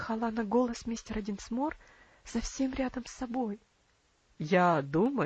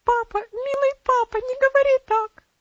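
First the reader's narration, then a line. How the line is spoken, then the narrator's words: Sobbing exclamation. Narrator (Russian): воскликнула, разрыдавшись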